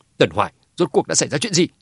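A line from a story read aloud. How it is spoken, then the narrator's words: Angry. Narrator (Vietnamese): Hà Chí tức giận nói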